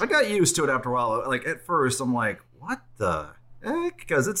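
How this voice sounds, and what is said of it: Usual voice. Nothing is said of it.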